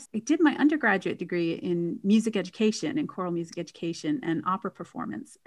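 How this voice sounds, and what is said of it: American English accent. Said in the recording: “as you can tell from my voice, I'm originally from the US”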